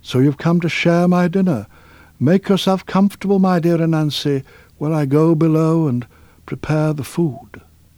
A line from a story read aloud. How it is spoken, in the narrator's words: exclaimed Turtle